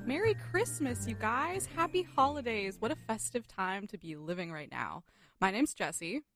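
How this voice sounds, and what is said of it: Bright festive advert-style voice. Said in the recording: “Why do I sound like that? Why do I sound like a Hallmark commercial? ... You sound like an ad. ... It's a little ad.”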